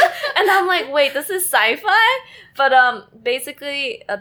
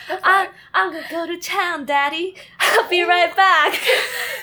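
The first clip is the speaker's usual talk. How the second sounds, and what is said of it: Put-on Southern girl's accent. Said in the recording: “girl with a southern accent”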